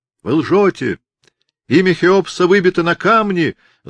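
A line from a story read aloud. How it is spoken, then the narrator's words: Young man yelling. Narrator (Russian): заорал молодой египтянин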